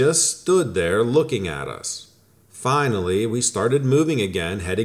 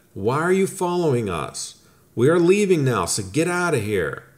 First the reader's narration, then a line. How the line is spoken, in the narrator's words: my friend yelled at it